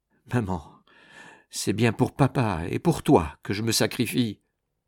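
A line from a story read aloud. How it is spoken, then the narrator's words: Sobbing murmur. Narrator (French): Nicole s'effondrait dans les bras de sa mère, et, tout en sanglotant, elle lui murmurait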